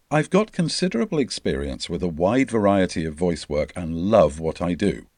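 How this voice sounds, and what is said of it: Mature, well-modulated BBC-style English accent. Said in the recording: “a mature, well-modulated BBC-style English accent”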